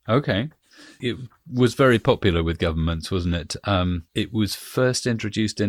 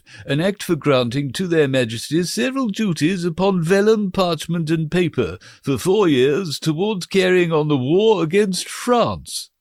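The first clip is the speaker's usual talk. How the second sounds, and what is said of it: Funny old-fashioned legal official voice. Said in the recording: “put on a funny voice ... a 1694 legal representative”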